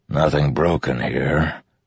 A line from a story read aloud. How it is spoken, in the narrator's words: Zile said with a grunt